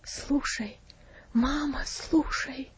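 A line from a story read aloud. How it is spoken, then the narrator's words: Whispered reply. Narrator (Russian): шепотом ответил Винси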